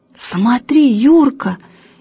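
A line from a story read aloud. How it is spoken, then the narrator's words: Frightened. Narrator (Russian): испуганно сказала Галя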